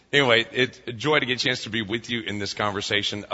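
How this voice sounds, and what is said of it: Slightly hoarse voice. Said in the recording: “My voice is a little hoarse. I feel better than I sound. I've got a little allergy something going on.”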